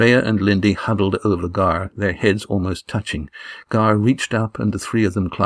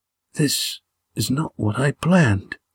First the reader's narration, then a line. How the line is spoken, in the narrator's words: he whispered